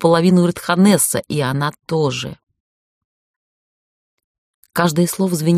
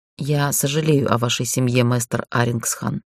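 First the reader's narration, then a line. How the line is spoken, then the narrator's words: Quiet. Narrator (Russian): сказала тихо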